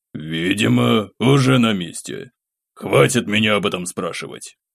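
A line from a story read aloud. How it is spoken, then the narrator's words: Irritated grumble. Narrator (Russian): проворчал Артем Филиппович, и в его голосе впервые прорезалась явная нотка раздражения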